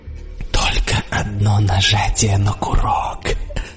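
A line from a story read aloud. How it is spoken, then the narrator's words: Whispered. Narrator (Russian): прошептал я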